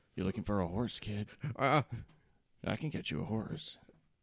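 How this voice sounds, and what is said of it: Put-on different character voice. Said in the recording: “doing a different voice”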